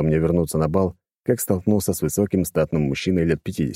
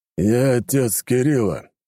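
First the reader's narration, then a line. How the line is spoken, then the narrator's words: Deep bass voice. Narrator (Russian): пробасил тот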